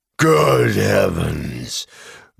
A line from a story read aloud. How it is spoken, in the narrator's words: growled Beorn